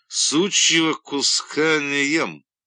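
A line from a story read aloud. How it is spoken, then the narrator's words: Loud and clear. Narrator (Russian): Бакенбард отказался, сказав громко и отчетливо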